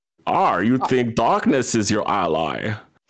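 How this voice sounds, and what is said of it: Bane character voice impression. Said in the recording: “I haven't done Bane in a long time. It's going to get butchered.”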